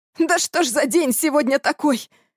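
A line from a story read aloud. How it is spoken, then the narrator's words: Howling. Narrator (Russian): Взвыл я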